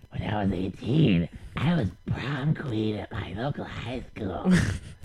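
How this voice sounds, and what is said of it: Raspy old woman's voice. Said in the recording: “sounds like every bartender in Vegas ... sound like the raspy old broad that works at, you know, every bar ... the raspy old lady that smoked 18 packs”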